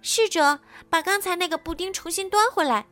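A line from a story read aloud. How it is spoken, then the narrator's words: Loud imitative shout. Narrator (Chinese): 她也学着红后的样子大喊道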